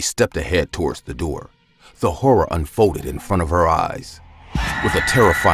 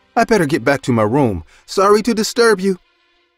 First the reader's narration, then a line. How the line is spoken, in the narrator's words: She said in a frightened voice